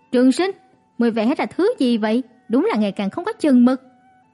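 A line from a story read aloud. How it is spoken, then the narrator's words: Loud shouted question. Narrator (Vietnamese): Trương Mệnh bèn lớn tiếng quát hỏi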